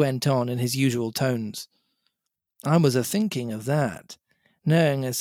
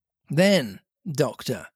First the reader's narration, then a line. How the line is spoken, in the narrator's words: said Silver